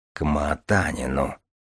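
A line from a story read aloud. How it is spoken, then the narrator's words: Absent-minded mutter. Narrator (Russian): пробормотал Мальгин, отвечая скорее своим мыслям, чем Инку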